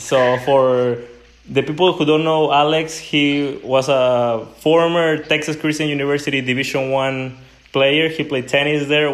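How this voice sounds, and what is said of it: Non-native English accent. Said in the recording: “excuse my accent”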